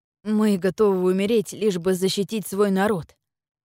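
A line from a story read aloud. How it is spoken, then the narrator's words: Hoarse wheeze. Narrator (Russian): прохрипел он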